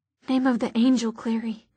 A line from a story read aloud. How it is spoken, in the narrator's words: he breathed